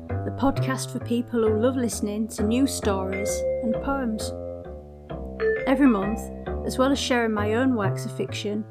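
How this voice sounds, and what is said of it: Hull accent. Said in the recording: “All Told in a Hull Accent”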